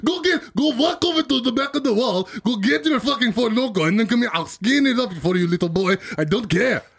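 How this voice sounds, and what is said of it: Put-on accent, Indian drifting to Russian. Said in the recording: “You got more and more Russian. You like, started off as Indian.”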